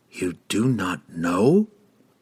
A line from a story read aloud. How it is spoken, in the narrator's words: hissed the young mage